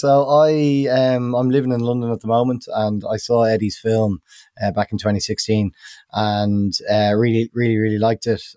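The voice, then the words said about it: Irish accent. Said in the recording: “certainly from your accent, you're an Irish producer.”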